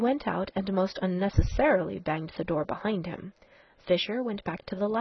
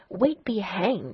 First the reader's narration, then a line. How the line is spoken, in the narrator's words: snarled the other